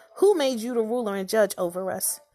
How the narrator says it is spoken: he asked

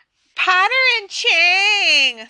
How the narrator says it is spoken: screeched Pansy

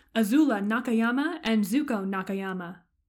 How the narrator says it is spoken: booms the announcer

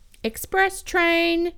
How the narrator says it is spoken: yelled the train guy

